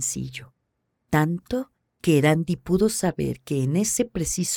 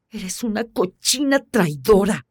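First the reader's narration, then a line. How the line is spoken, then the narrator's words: Near howl. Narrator (Spanish): casi le aulló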